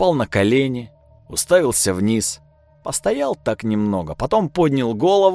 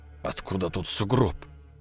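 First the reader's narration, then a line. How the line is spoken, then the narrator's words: Whispered. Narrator (Russian): прошептал капитан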